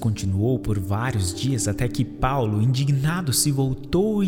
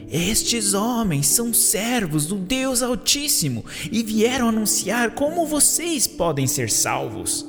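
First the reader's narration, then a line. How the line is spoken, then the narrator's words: Shouting. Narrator (Portuguese): gritando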